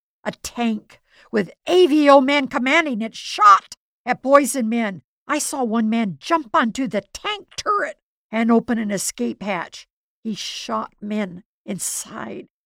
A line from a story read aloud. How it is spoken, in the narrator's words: Another neighbor shouted